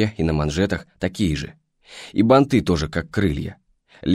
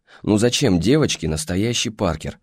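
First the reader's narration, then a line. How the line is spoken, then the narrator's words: Mother sighing. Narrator (Russian): вздохнула мама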